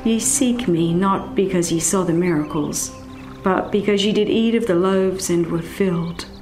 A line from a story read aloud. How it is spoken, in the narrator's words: He sadly said